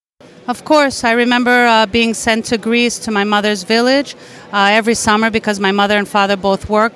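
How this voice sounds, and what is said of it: Greek-influenced accent. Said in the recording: “As you may have detected in ... accent, her family's roots are in Greece.”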